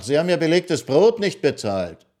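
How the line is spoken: Waiter calling after. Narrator (German): rief ihm der Kellner nach

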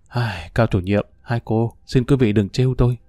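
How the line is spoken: Sighing. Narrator (Vietnamese): Lâm Hiệu thở dài

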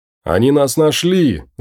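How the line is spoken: Shout. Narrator (Russian): закричал Ноэл

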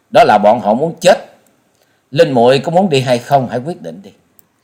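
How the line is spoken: Laughing loudly. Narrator (Vietnamese): Trần Lâm cười to nói

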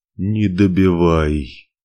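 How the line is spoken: Groan. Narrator (Russian): Простонал Ивар

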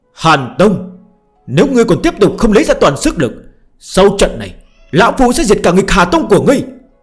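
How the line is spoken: Heavy breathing, sudden roar. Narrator (Vietnamese): Trần Hạ Thiên hít thở ồ ồ, chợt gào thét

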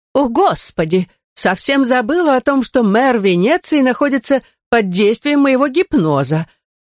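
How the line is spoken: Exclaiming. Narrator (Russian): воскликнула Джоли

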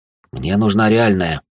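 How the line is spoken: Sighing. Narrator (Russian): вздохнул

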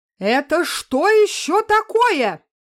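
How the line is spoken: Siren-like scream. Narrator (Russian): сиреной завопила женщина в белом халате

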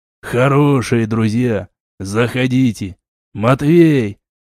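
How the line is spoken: Ship siren barking. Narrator (Russian): рявкнула корабельная сирена

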